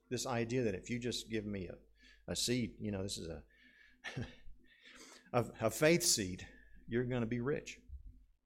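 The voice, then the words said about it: Put-on Southern accent. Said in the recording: “I'm using this accent because a lot of Southern people”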